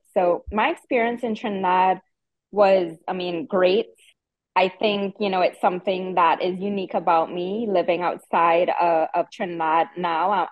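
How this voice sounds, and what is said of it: Strong Trinidadian accent. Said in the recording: “you can still hear my accent, even though it has evolved with traveling to different areas in the world ... I still have that strong Trini accent”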